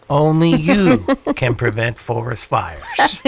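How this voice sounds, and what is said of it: Smokey the Bear impression. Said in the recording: “I am no Sam Elliott, but that was my Smokey the Bear impression.”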